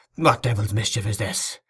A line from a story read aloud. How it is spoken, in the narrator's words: muttered